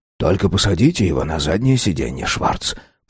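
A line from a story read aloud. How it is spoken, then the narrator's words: Whisper. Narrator (Russian): прошептал он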